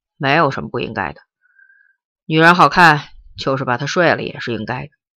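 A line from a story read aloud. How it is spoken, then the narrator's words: Cold. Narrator (Chinese): 陈诚冷冷地说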